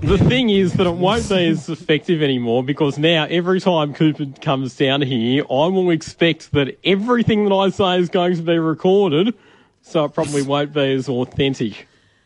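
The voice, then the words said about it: Loud, yelling radio voice. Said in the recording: “Is that what you're screaming at us in now? Is this what you call your radio voice? ... It's just his normal voice, but louder. ... It's just him yelling.”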